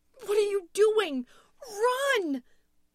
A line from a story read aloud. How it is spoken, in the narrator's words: Louise screamed again, shouting at Tom